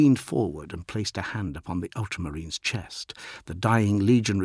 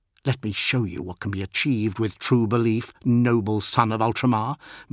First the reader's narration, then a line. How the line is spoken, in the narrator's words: Marduk snarled